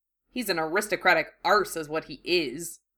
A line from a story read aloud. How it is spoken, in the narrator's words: Ron muttered